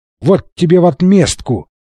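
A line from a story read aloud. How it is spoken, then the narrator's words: Shouted. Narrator (Russian): крикнул Фрэнсис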